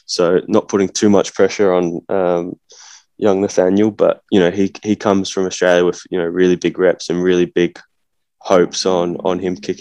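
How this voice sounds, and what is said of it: Australian accent. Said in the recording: “Are you an Australian putting on an Australian accent? ... a little bit more of a real Aussie twang to it ... I come from Adelaide”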